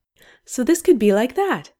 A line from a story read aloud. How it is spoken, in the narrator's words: Aziraphale says brightly